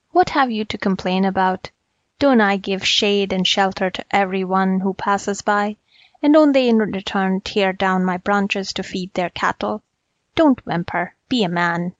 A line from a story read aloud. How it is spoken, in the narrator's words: the peepal tree replied coldly